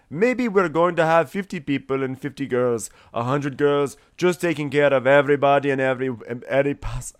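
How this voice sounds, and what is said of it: Put-on Indian accent. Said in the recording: “I don't know why I'm giving him an Indian accent.”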